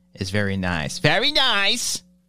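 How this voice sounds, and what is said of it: Weird put-on accent. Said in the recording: “your Borat impression ... saying very nice in a ... in a weird accent”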